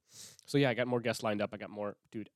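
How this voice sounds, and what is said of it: Congested voice with sniffling. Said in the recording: “I have a cold. I'm sniffling because I have a cold”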